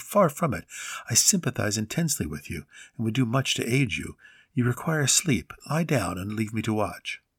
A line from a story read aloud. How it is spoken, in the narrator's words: I answered soothingly